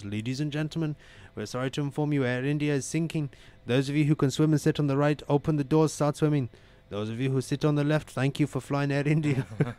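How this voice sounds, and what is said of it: Poor imitation Indian accent. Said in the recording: “your Indian accent is horrible, bro.”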